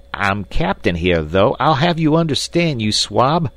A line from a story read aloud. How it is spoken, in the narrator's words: shrieked Snipes with a volley of frightful oaths